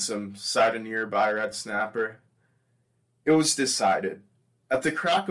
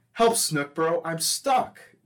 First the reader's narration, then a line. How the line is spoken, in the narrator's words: Gilbert would desperately gripe to Shane when he found himself wedged between the mangrove roots